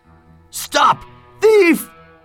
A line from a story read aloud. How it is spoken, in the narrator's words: Huckster, a shop owner across the street, yelled out